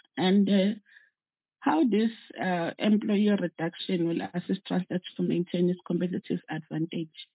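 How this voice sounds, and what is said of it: Strained voice, still recovering. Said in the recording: “I'm still recovering from a terrible flu, and my voice is still recovering.”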